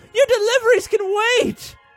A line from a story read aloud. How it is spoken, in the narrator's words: Sharon pleaded